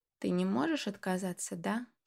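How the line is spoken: Quiet hopeful female question. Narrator (Russian): Тихо спросила Марианна, и в ее голосе послышалась надежда

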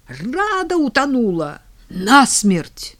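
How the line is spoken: Instant yell. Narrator (Russian): мигом заорала

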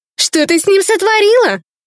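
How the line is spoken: Accusing exclamation. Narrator (Russian): обличительно воскликнула Марьяна

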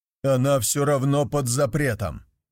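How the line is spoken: Barked shout. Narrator (Russian): гаркнул я

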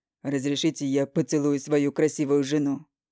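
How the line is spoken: Loud, smiling. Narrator (Russian): Громко говорит Максим широкой улыбкой

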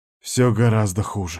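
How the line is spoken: Exhaled. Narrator (Russian): выдохнул я

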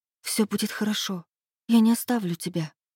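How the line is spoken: Whisper. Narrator (Russian): прошептала

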